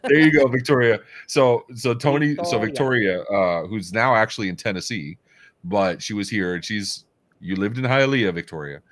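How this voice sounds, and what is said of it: Deep voice. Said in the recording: “I have a deep voice”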